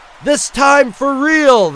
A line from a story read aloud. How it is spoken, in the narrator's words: the doctor shouted